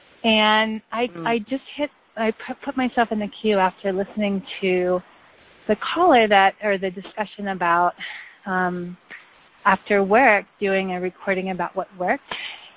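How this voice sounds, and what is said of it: Soft voice with a cold. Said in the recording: “I have a bit of a cold, so that's why my voice is a little soft.”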